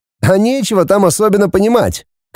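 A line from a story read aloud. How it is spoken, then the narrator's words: Snorting. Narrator (Russian): хмыкнул Вадим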